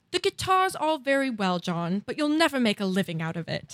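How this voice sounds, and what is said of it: Put-on British accent. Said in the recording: “I'll try the British accent ... you're like really good”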